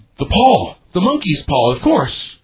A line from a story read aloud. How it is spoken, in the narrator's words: the wife cried out wildly